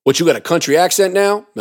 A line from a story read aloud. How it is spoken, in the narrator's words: Melvin asked